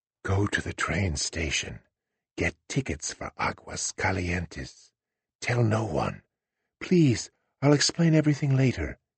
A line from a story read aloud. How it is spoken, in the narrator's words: whispering in his ear